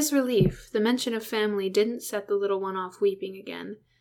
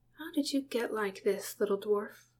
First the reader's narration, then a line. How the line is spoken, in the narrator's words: Bilbo murmured